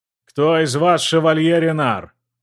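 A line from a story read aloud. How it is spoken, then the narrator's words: Menacing question. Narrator (Russian): Грозно поинтересовался блондин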